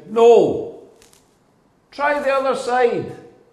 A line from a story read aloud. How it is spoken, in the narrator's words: they shout